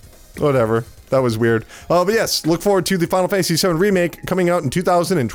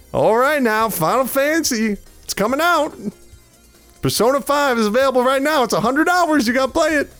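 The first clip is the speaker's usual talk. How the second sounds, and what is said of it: Put-on deep Southern US accent. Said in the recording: “That man with that deep southern accent always hawking Persona 5.”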